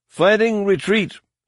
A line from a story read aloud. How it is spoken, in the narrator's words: shouted